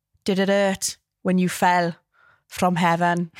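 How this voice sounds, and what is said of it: Strong Southern Valleys Welsh accent. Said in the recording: “I'm doing like a really Southern Valley Welsh accent right now... they proper speak strong like that.”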